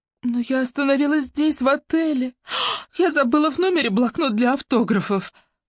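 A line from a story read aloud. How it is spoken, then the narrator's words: Slightly trembling voice. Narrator (Russian): сказала чуть дрожащим голосом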